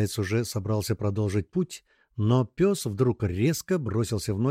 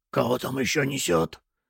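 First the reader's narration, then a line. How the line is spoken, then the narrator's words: Barely audible whisper. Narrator (Russian): еле слышно прошептал легионер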